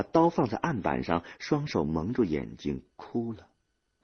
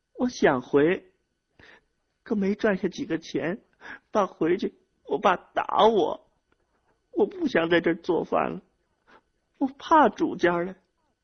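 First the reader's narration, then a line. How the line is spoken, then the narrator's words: Crying while speaking. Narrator (Chinese): 她一边哭一边说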